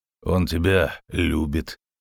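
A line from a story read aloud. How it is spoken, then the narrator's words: Grumbling. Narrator (Russian): проворчал Геральт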